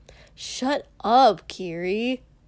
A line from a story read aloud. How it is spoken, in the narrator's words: Katsuki groaned